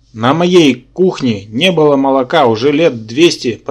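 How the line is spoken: Demoness growling. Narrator (Russian): прорычала демоница

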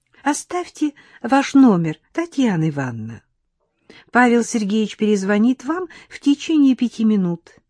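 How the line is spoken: Sugary young woman's voice. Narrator (Russian): мармеладным голоском проговорила девица

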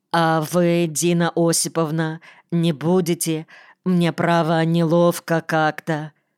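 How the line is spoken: Mumbling with full mouth. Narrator (Russian): давилась, чавкала, при этом мямлила

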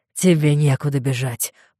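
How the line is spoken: Growl. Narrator (Russian): прорычал он

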